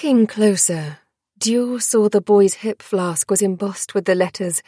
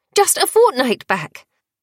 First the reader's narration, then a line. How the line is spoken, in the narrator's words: Dior cried